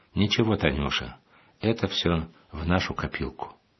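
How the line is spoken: Calm, sympathetic fatherly voice. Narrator (Russian): Отец, почувствовав, каковы в этот момент переживания дочери, спокойно сказал

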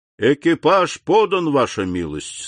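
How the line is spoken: Plain. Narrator (Russian): сказал он

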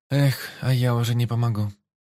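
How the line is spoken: Sad sigh. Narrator (Russian): грустно вздохнула Джуланель

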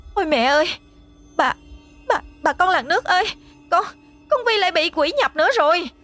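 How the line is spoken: Startled stammering shout. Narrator (Vietnamese): Cháo nóng bắn vào chân làm cho Xuân giật mình, lắp bắp hét lớn

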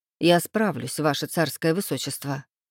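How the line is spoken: Servant muttering, hiding displeasure. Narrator (Russian): пробормотал слуга, стараясь скрыть свое недовольство

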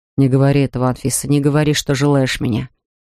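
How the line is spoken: Almost rough reply. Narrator (Russian): ответил он почти грубо

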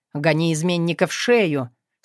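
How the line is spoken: Stern command. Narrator (Russian): строго-настрого запретил

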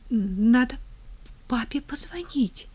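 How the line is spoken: Trembling mumble. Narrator (Russian): дрожащим голосом пробормотала Тина

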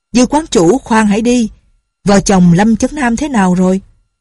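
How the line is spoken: Loud voice. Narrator (Vietnamese): Nhạc Bất Quần lớn tiếng nói

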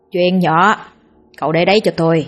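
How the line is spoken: Sly smiling voice. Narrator (Vietnamese): xoa tay mỉm cười gian trá

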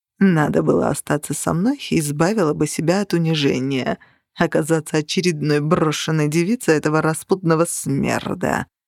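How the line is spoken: Purring. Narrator (Russian): промурлыкал он

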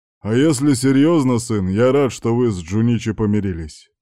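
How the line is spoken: Father's more serious voice. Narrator (Russian): продолжил папа, но уже более серьезным голосом

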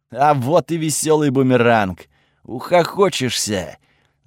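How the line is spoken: Laughing. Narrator (Russian): засмеялся Готфред

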